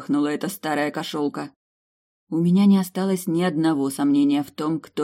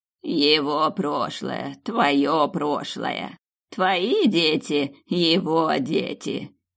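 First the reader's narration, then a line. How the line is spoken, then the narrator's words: Hoarse laughter. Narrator (Russian): хрипло засмеялась та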